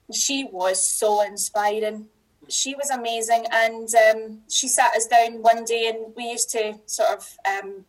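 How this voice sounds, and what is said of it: Slightly toned-down Scottish accent. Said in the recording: “this is why I don't dull down my accent. I'm dulling it down just a wee bit”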